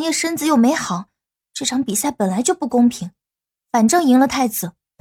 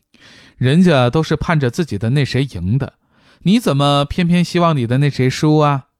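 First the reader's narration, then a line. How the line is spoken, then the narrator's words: Laughing. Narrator (Chinese): 高笑眼笑道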